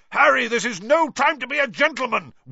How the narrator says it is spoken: Wood roared

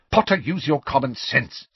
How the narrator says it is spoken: snapped Professor McGonagall, with an abrupt return to her usual manner

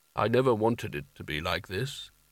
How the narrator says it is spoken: he said softly

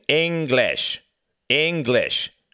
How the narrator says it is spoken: snapped Cuthbert

